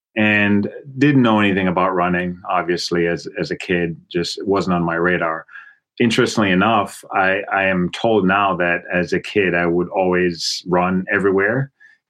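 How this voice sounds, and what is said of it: Jamaican accent. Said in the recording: “the accent that you are hearing, is my Jamaican accent and not my Boston accent”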